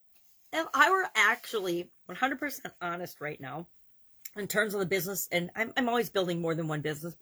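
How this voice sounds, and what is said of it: Sick, congested voice. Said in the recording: “because I have a cold. ... coughing my head off”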